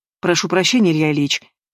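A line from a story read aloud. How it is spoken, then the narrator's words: Clipped. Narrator (Russian): отрывисто говорит Демьян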